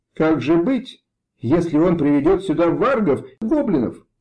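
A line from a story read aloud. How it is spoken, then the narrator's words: Exclaiming. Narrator (Russian): воскликнул он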